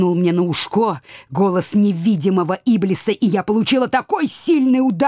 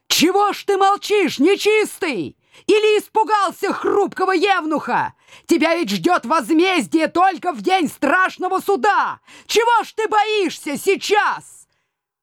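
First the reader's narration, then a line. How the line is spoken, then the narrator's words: Shouting again. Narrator (Russian): выкрикнув снова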